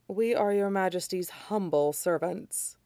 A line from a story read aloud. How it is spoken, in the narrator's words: the agent said smoothly